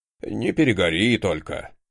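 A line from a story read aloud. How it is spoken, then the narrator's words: Boss's grumble. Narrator (Russian): проворчал мой начальник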